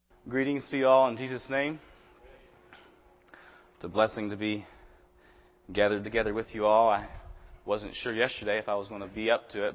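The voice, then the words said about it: Voice lower than normal, unwell. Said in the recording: “My voice is a little lower than normal”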